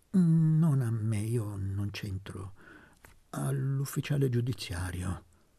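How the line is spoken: Managed to stammer. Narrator (Italian): Trovò il modo di balbettare

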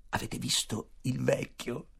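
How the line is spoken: Whispered. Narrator (Italian): bisbigliò

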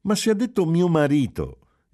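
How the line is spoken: Surprised exclamation. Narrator (Italian): esclamò Giulia sorpresa

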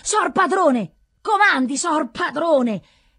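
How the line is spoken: Exclamation. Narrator (Italian): esclama

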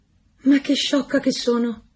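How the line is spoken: Exclaiming. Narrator (Italian): esclamò la marescialla

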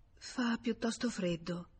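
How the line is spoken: Murmured. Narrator (Italian): mormorò infine lei

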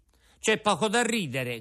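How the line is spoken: Offended shout. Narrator (Italian): gridò Pinocchio impermalito

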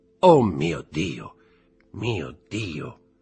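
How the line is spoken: Murmured. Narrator (Italian): mormorò egli

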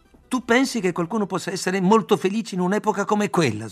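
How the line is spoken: Outburst. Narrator (Italian): sbottai

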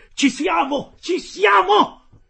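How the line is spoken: Man shouting. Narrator (Italian): urlava il canadese

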